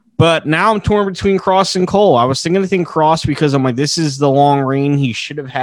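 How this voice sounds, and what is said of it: Usual voice. Nothing is said of it.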